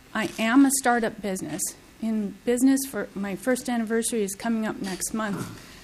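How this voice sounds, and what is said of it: Shaky, emotional voice. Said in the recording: “my voice is a little shaky right now, and my emotions are pretty high”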